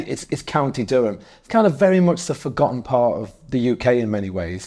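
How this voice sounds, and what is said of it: Northeast English accent. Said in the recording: “by the sounds of your accent, you're not from Leeds, you're not from Manchester, you're not from London ... I'm from the northeast”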